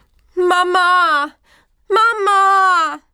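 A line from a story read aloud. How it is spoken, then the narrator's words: Little lamb calling repeatedly. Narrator (German): Das kleine Schäfchen rief und rief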